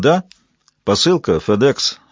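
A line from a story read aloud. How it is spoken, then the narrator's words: Plain. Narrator (Russian): сказал Поттинг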